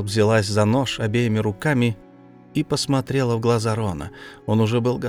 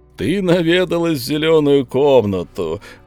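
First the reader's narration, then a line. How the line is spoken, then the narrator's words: Laughing. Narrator (Russian): он засмеялся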